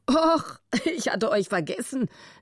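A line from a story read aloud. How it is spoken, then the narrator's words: Amused male laugh. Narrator (German): lachte er, halb grinsend vor Vergnügen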